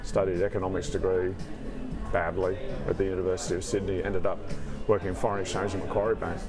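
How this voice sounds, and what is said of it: Australian accent. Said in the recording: “listeners may be able to detect the accent ... Australian, obviously.”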